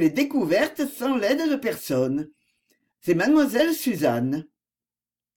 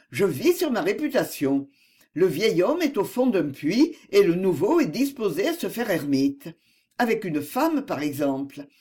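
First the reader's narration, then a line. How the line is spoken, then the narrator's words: Cheerful retort. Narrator (French): répliqua-t-il gaiement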